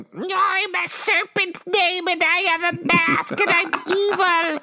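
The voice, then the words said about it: Impression of Cobra Commander. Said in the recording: “my whole impression of Cobra Commander”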